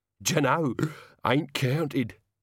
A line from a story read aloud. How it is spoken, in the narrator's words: said Albert happily